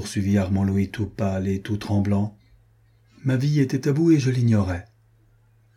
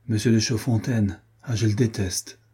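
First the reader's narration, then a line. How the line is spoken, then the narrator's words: Plain. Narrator (French): dit Adrienne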